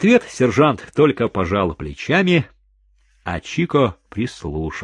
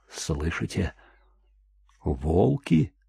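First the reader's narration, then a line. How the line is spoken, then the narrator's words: Whisper after a pause. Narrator (Russian): прошептал он после некоторого молчания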